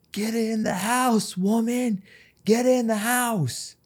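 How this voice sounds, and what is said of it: Yelling. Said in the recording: “I'm yelling,”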